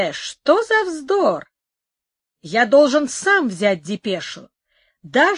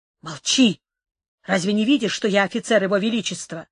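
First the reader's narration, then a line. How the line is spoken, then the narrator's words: Annoyed whisper. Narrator (Russian): с досадой прошептал Дон Карлос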